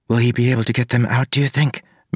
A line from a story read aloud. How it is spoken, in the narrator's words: Maracy whispered